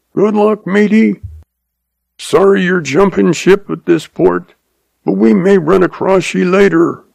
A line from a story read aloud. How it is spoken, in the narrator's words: Ed yells